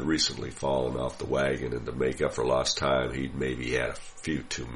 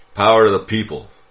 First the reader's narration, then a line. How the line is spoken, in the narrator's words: shouted menacingly